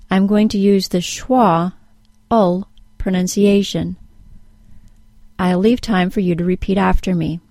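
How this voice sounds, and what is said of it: American English accent. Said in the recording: “I speak with an American accent”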